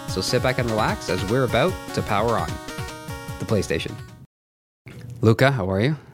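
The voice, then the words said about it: Deeper, under-the-weather voice. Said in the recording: “A little under the weather, so I don't know if my voice is going to sound different to everybody ... your 1-900 voice ... I finally hit puberty. My voice changed.”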